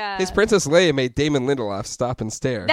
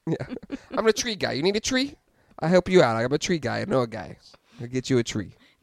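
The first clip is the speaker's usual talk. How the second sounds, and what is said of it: Put-on Long Island accent. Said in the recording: “Long Island accent.”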